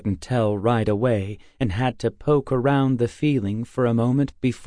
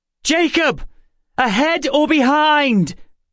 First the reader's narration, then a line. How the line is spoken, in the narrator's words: Emma shouted in my ear